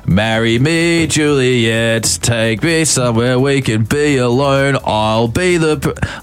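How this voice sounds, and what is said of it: Exaggerated put-on Australian accent. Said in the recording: “What I was doing in a very Australian accent. It was hilarious.”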